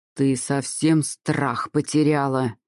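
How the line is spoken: Growl. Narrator (Russian): зарычал

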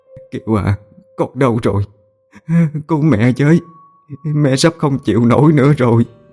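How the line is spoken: Sobbing, calling out. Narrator (Vietnamese): Bà nức nở gọi tên con

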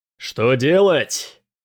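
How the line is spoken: Loud shout. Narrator (Russian): громко крикнул Дрейк, чтобы услышали и на соседнем корабле

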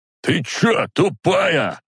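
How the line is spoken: Man barking. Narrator (Russian): гаркнул на продавщицу мужчина

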